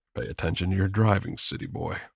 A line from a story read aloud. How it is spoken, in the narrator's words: he murmured